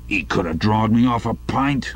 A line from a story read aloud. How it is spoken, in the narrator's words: grumbled the old man